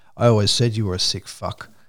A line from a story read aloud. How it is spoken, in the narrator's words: Paris said in his normal tone